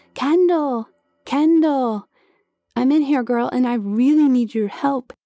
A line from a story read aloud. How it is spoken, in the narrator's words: I yelled again